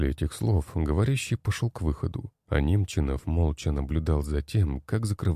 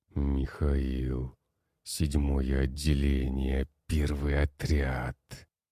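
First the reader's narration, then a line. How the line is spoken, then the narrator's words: Quiet growl. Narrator (Russian): Тихо прорычал он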